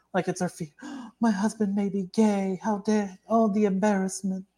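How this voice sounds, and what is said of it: Imitates another person's voice. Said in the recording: “That's a good Carey Mulligan impression.”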